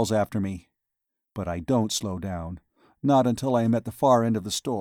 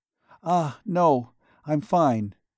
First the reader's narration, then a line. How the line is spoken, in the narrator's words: gasp